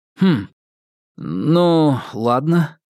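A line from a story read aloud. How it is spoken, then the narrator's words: Uncertain drawl. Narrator (Russian): несколько неуверенно протянул Ньют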